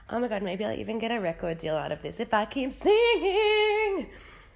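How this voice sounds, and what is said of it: Congested voice from a cold. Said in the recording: “I have a cold. That's why that sounded like that.”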